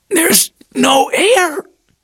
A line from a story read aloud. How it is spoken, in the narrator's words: she gasped